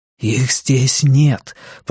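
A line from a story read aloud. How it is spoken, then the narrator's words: Whisper close to ear. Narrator (Russian): прошептал Кориолан ей прямо в ухо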